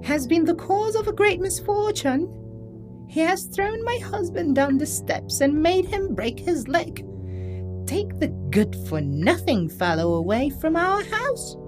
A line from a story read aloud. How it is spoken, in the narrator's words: cried